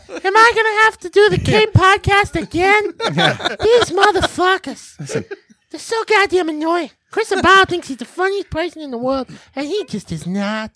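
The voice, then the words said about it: Poor imitation of another person's voice. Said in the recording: “That is the shittiest Christian Cordes impersonation I have ever heard ... the worst impression”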